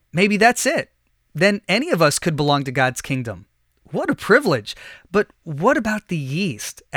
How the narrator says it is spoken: asked

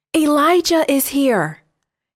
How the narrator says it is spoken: he shouted to King Ahab

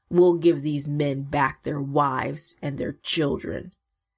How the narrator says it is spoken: they grumbled

